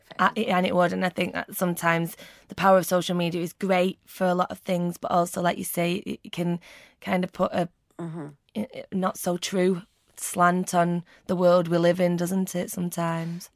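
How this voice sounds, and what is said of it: Mancunian English accent. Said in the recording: “You've got a very memorable voice. I love your accent, from Mancunian accent. It's one of my favourite accents.”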